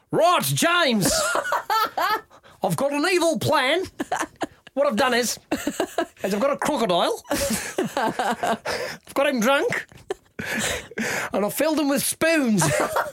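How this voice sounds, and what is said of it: Put-on Australian accent, Bond villain. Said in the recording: “Australian. What would be Australian? ... Australian's Cockney warmed up. ... think about a Cockney accent and then make it warmer. ... An Australian James Bond villain.”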